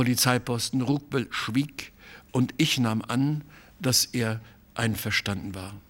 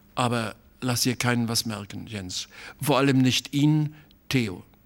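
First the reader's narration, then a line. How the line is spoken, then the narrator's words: Hesitant voice. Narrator (German): sagte er noch mit zögernder Stimme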